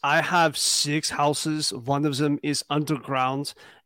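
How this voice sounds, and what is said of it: Exaggerated put-on German accent. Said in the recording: “my accent is so German. Nobody sounds this German, not even in Germany.”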